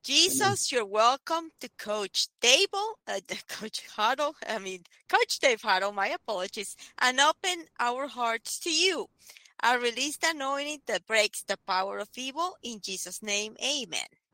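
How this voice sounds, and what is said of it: Slight Spanish accent. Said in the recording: “speaks with a little bit of an accent there... she says joke instead of yoke... Spanish”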